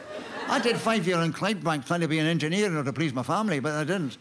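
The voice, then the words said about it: Glasgow Scottish accent. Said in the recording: “I'm speaking with a Glasgow accent”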